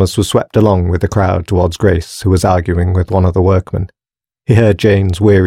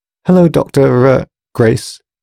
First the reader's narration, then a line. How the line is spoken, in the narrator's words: stuttered Thomas quietly